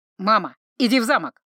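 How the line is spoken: Barked. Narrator (Russian): рявкнул старший

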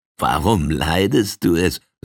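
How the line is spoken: Laughing. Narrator (German): lachte einer seiner Leute

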